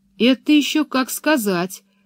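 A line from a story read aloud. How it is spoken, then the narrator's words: Calm reply. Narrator (Russian): спокойно ответила Пеппи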